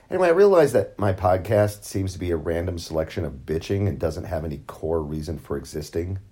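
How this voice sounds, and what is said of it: Rough, hoarse voice. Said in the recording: “My voice is going to be a little rough on this. I've got a cold”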